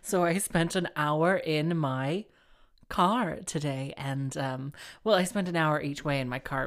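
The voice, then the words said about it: Slightly hoarse voice. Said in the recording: “I sound a little hoarse”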